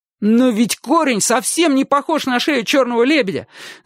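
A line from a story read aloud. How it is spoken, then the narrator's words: Astonished shout. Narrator (Russian): закричал Чик, пораженный такой необъяснимой ошибкой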